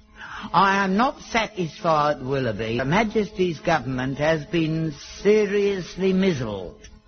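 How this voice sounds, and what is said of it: Unpolished put-on accent. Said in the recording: “Don't bother about the accent, I'll work on that later.”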